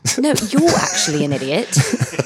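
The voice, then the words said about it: Put-on polite English accent. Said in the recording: “I'm going to start speaking in an English accent, but only when I want to say something that's like, I want it to sound nice and polite ... It did sound nice.”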